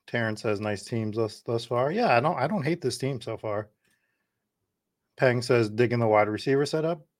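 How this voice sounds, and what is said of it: Hoarse, fading voice. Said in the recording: “I'm losing my voice”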